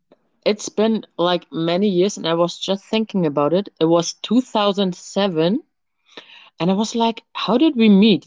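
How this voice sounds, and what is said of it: German accent. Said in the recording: “someone with an accent. ... straight from Germany”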